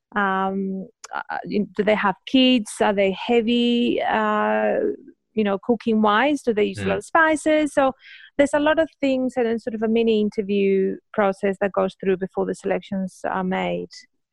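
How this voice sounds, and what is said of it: Spanish accent. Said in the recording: “It's Spanish. ... I'm Spanish ... You probably notice my accent.”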